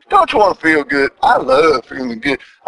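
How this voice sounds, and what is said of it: Energetic, more cranked-up voice than usual. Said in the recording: “You can tell by my voice, I'm a little more cranked up than usual”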